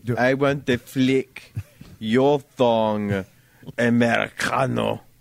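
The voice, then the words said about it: Put-on Russian-Mexican style accent. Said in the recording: “Now he sounds Russian. ... Eastern European. ... He turned into a South American revolutionary. ... He's like a Russian Mexican.”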